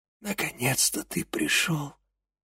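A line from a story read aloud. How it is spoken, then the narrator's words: Quiet rasp. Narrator (Russian): тихо прохрипела Клея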